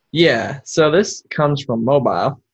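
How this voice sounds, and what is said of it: Put-on Southern US accent. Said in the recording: “Lose the southern accent”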